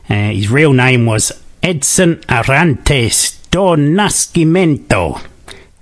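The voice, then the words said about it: Put-on Spanish accent. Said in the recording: “How's that for a Spanish accent?”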